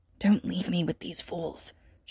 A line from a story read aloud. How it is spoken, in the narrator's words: stage whispers with mock and earnest conviction alike